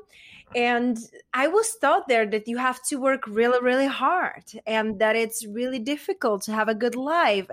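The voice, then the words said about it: Czech accent. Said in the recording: “I was raised and born in Czech Republic, and hence that's where my accent is from.”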